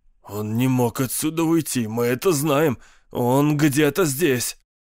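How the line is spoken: Hoarse speech. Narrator (Russian): Капитан Горсет хрипло проговорил

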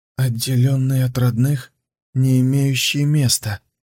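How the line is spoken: Trembling voice. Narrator (Russian): проговорил Хэлань дрогнувшим голосом

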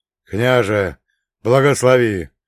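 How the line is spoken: Hoarse rasp. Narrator (Russian): прохрипел Ивашка

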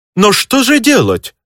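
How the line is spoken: Desperate, mimicking a countess. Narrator (Russian): с отчаянием воскликнул Иваныч в образе немецкой графини

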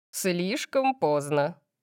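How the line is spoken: Muttered under breath. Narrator (Russian): сказал Сет себе под нос

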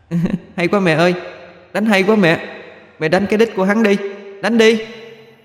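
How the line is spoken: Gleeful laughing little demon. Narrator (Vietnamese): Con tiểu quỷ thích thú cười to, rồi nói

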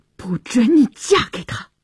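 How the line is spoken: Through gritted teeth. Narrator (Chinese): 乔治咬牙切齿地说

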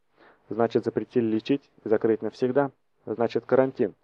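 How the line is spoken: Menacing growl. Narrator (Russian): угрожающе прорычал гигант

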